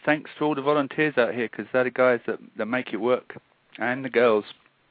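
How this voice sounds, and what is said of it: Non-local foreign accent. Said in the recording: “I'm not from these parts. The accent probably gives it away. ... it is a bit different to hear the story told with that accent”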